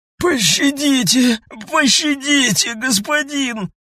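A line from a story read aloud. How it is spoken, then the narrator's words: Hoarse, deeply terrified. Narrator (Russian): произнес хрипло, и в голосе этом звучал только глубокий и черный, как яма, ужас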